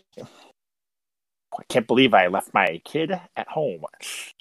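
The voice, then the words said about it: Imitates another person's voice. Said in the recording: “my French Stewart impression”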